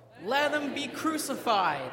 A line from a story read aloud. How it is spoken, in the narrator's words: they shouted all the more